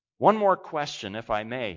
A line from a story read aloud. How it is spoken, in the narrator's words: he said